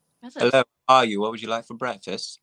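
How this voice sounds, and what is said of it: Very poor put-on English accent. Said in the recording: “the worst English accent I've ever heard in my life.”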